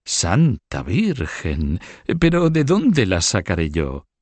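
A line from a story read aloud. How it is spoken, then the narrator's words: Exclaimed. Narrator (Spanish): exclamó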